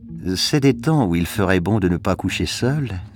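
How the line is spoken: Dreamy woman's voice. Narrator (French): fit la femme d'un ton rêveur

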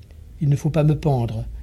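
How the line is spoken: Toneless, blank voice. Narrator (French): dit encore Jansson d'une voix blanche

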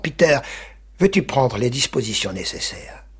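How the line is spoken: Curt, cutting tone. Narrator (French): elle lui déclara d'un ton coupant

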